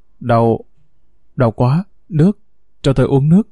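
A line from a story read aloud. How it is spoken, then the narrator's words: Pained, labored moaning. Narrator (Vietnamese): Lâm đau đớn, khó nhọc, rên rỉ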